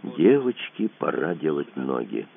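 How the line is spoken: Quiet command. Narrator (Russian): тихо скомандовал Кацуба

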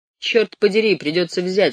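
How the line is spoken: Plain. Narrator (Russian): сказал он писарем

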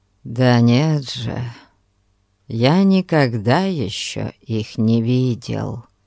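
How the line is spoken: Plain. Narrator (Russian): Сказал Анзолетто

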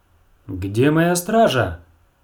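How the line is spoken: Exclaiming. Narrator (Russian): воскликнула Дэнни

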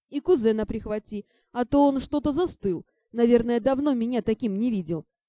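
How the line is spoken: Deep booming laugh. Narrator (Russian): Дракон басовито хохотнул

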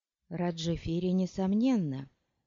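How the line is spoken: Quiet. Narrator (Russian): негромко сказала она

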